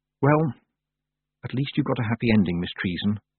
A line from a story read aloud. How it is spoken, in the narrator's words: Tiffany whispered